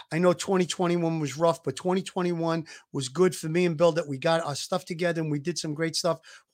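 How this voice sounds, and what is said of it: Hoarse, slightly rough voice. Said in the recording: “My voice is a little messed up. I'm just getting over this COVID thing. I hope I wasn't too hoarse. ... I was coughing a little bit”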